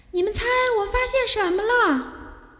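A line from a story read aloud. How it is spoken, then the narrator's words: Loud call. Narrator (Chinese): 他就大声叫起来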